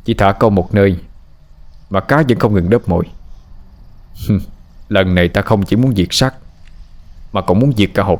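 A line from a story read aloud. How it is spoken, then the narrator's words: Harsh angry tone. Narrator (Vietnamese): Phượng gằn giọng giận dữ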